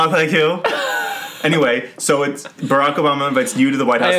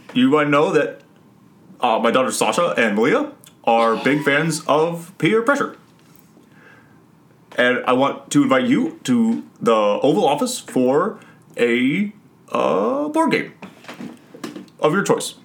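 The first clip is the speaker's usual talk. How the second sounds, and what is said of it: Imitates another person's voice. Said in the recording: “That's a really good Barack ... That was an excellent impression.”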